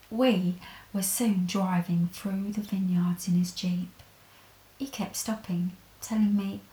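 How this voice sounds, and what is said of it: Usual voice. Nothing is said of it.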